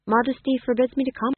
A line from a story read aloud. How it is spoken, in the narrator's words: said the fool, and then remembered himself and added quickly